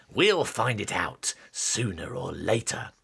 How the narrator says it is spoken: Stripe hissed

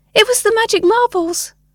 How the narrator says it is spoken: a child yelled

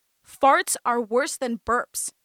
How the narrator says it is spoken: she exclaimed

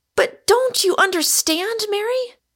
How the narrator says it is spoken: cried Rosamond in despair

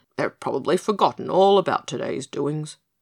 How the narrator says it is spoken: mumbled Pigasus

